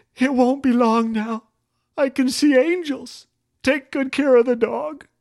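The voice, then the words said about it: Weak, feeble little voice. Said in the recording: “in a weak little voice”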